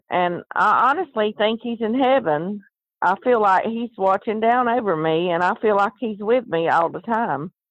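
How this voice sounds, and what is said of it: Southern American accent. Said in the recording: “I'm from the South, and I talk Southern”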